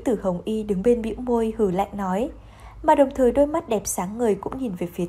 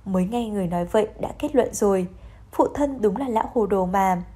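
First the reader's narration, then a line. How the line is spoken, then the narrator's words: Smiling. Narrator (Vietnamese): Đường Trấn mỉm cười nói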